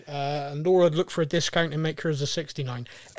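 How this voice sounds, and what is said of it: Very fast speech. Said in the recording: “I said that really fast”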